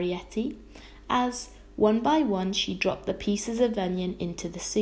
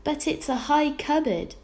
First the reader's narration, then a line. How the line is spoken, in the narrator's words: exclaimed Homily